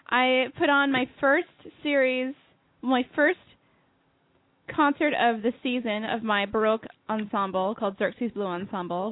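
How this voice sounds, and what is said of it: Congested, stuffy voice. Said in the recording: “I sound a little congested because I'm getting over a cold.”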